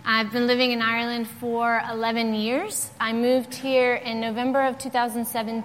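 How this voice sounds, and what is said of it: American Southern accent. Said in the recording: “you'll hear an American accent because I am from the great state of Georgia”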